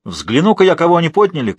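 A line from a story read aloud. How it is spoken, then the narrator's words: Old woman's shout. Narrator (Russian): крикнула старая графиня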